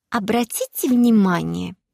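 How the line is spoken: Snide, mocking. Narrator (Russian): ехидно сказала Машенька Белая

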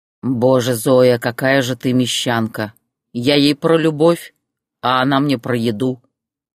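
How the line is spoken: Scoffing. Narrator (Russian): хмыкнул Борис

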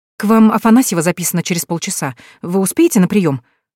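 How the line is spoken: Anxious question. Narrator (Russian): взволнованно спрашивает

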